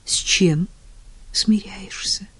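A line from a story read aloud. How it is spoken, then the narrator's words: Whisper. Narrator (Russian): шепнул Клейтон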